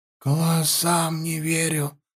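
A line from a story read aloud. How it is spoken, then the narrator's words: Sea maiden whispering. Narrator (Russian): прошептала морская дева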